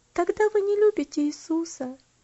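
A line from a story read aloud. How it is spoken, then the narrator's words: Sad reply. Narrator (Russian): печально ответила она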